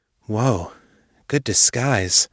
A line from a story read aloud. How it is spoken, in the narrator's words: Joe murmured